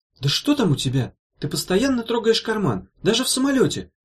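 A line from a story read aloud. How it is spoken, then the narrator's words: Sudden exclamation. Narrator (Russian): внезапно воскликнула она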